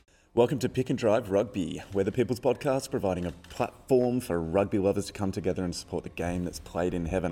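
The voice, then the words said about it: Hoarse, worn-out voice. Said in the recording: “my voice is pretty gone”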